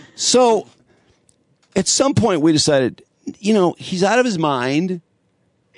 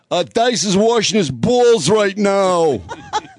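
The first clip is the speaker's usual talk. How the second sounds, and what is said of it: New York accent impression. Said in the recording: “That New York accent.”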